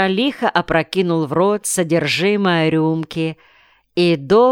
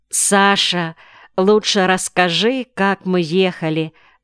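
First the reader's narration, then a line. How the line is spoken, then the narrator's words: Plain. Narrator (Russian): сказала она Гольцеву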